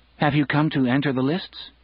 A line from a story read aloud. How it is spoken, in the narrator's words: Dunk asked anxiously